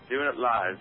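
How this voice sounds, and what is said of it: Put-on British accent. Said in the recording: “Could you say that with a British accent?”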